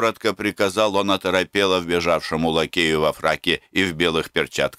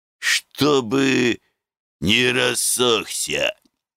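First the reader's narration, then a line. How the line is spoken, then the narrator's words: Hoarse drink-worn bass. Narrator (Russian): прибавил Липачек хриплым, перепитым басом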